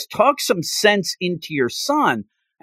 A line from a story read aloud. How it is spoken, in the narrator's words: mother, because she's screaming, yelling, says